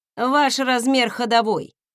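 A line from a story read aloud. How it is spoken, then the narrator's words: Answered dryly, trader. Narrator (Russian): сухо ответил торговец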